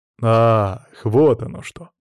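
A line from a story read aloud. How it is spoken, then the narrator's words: Drawn-out joyful surprise. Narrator (Russian): С радостным удивлением протянул император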